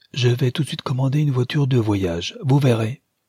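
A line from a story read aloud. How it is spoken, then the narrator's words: Elated male exclamation. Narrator (French): s'écria le prince transporté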